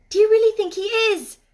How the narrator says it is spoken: cried Mary eagerly

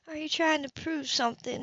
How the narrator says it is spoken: She murmured

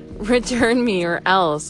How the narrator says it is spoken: Alyssa giggled

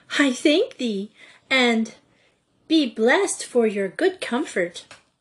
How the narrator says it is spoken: saying with a giggle

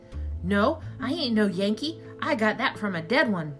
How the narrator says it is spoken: I sputtered, trying to convince them

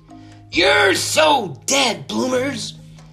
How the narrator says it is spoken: she yelled

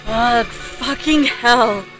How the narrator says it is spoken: I exclaimed in frustration

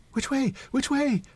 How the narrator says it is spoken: they both cried in a breath

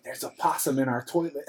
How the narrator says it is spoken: Mama whispered

